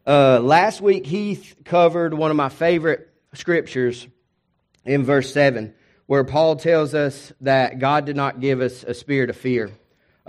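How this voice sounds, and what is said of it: Hoarse, half-gone tired voice. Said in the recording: “my voice is halfway gone ... I'm tired”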